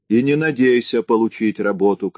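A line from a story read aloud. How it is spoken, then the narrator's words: Shouting. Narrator (Russian): кричала Нина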